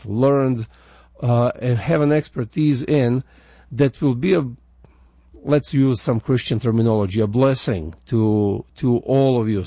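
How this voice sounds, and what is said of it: Slavic accent in English. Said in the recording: “I've been working real hard to get my American accent as much as I can, but it's still there. The Slavic in me is still crying out.”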